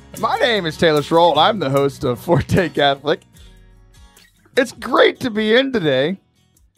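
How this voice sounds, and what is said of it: Hoarse, struggling, nearly lost voice. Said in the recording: “I lost my voice over the weekend... My voice is struggling quite a bit.”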